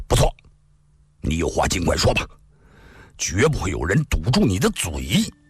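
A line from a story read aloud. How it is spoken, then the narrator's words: Stern harsh voice. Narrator (Chinese): 公孙羽厉声说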